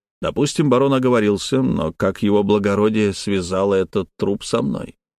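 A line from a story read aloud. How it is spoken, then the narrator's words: Plain. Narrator (Russian): спросил я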